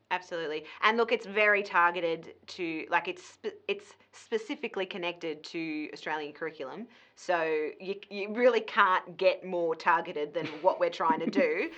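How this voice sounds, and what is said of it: Broad Australian accent. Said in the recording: “my very broad ochre accent”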